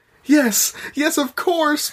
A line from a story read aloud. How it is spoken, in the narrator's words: Mothmom cried